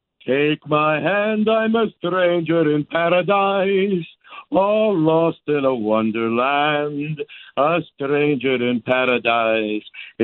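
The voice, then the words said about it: Sings in a makeshift accent. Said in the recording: “you got an accent there ... you got an accent with it, too ... You got a makeshift accent there, too.”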